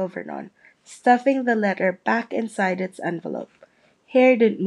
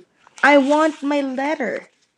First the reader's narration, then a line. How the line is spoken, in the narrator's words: he shouted